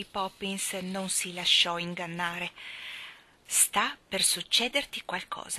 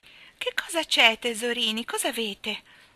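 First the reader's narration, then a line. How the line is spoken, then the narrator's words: Falsely sweet voice. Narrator (Italian): disse con voce falsamente gentile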